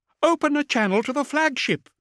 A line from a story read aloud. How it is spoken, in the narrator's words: cried